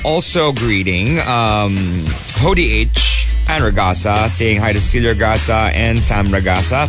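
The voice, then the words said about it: Unusually low voice. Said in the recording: “my voice is very low today”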